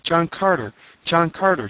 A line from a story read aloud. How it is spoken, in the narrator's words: she cried